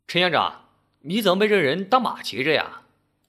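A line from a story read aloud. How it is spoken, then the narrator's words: Loud voice from behind. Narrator (Chinese): 背后有人大声说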